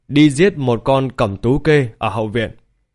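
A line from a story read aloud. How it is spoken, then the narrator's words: Loud call. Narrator (Vietnamese): Lý Vân Hồng lớn tiếng gọi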